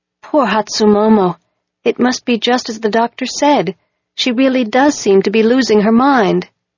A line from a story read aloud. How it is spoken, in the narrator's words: said sadly